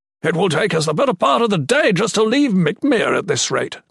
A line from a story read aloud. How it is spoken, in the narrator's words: Cadean shouted